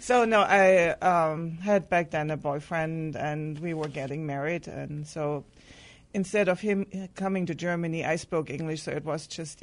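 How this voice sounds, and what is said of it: German-accented English. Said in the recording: “Your German accent makes it sound a little like Tweety. ... you have a lovely German accent.”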